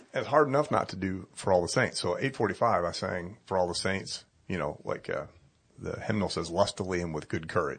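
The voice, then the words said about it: Slightly raspy, strained voice. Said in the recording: “my voice is a little raspy right now because by the end of the third sermon, I don't know if you've noticed, my voice was shot because I cannot help but sing Marching to Zion full blast 3 times.”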